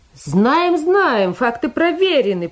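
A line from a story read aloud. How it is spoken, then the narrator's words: Smug shouting. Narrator (Russian): прокричал комсорг, наслаждаясь собственной осведомленностью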